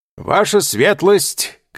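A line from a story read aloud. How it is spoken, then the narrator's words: Shouted. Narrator (Russian): крикнул Чичероне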